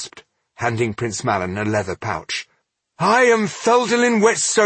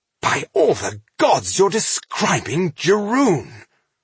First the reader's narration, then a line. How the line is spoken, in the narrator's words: Rodario exclaimed